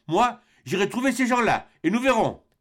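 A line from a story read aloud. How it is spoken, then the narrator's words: Young man's exclamation. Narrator (French): s'écria le jeune Robert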